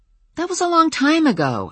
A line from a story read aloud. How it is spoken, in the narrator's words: I said hotly